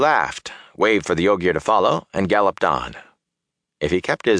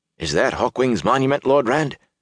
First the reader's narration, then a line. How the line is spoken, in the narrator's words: Huron asked uneasily